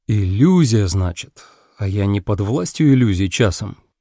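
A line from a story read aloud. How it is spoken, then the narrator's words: Muttered. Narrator (Russian): Я пробормотал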